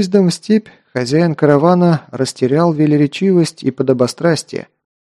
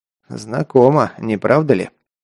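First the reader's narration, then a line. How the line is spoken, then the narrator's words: Snorting. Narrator (Russian): хмыкнул Кир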